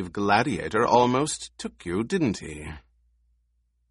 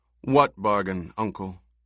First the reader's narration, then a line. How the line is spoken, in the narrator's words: Feyd-Rautha felt proud that his voice remained calm and reasonable, betraying none of the elation that filled him